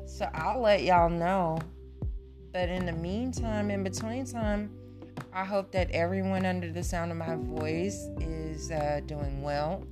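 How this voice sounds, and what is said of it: Congested, nasal voice. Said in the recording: “I had a little cough and a little phlegm ... I get nasally and all in my head”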